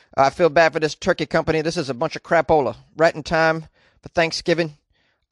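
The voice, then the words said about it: Put-on Texas accent. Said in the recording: “This is my Texas accent. I don't know if it's accurate or not, but it feels damn good.”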